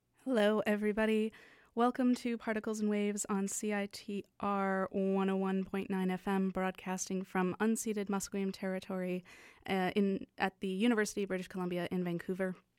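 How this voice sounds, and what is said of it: Congested, slightly husky voice from cold. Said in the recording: “I have a cold today. So in addition to sounding like, you know, between 10 and 15% more sultry”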